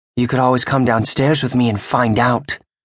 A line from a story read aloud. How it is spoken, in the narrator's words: she hisses